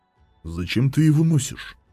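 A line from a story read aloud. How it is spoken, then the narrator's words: Quiet question. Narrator (Russian): Тихо поинтересовался Талос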